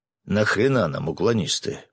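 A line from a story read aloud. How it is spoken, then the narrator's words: Grumbling colonel. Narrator (Russian): проворчал полковник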